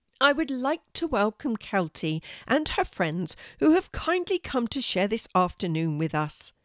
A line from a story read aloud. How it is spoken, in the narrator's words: said happily